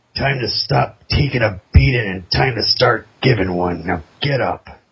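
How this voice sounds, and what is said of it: Raspy gravelly character voice. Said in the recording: “another rasp off here ... raspy stick quotes”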